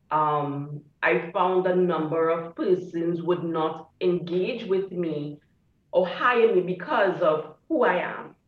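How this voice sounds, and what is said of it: Speaks with a noticeable accent. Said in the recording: “my accent, that has been a major disqualifier”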